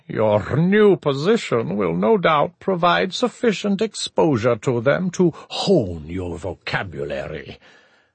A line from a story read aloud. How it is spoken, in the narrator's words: purring chuckle